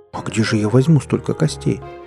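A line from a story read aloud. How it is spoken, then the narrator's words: Frightened question. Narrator (Russian): испуганно спросила Чучулёка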